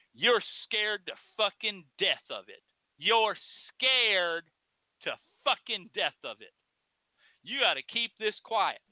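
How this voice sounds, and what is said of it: Angry voice, accent comes through. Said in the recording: “Can you tell I got my red up? Can you hear it in my voice? This ain't fake right now. ... See how mad I am? This is when your accent comes back. When you're mad”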